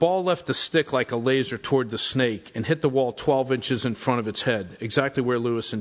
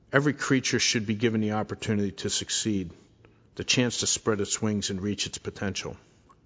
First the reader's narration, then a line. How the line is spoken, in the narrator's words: In something of a trance, said softly to them, but really to himself